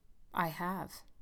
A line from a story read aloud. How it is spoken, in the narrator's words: he said quietly